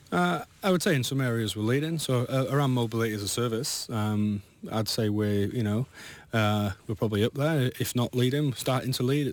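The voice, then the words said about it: Non-local accent. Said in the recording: “your accent tells me you're not from round here”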